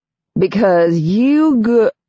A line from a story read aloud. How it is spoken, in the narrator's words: the guy drawls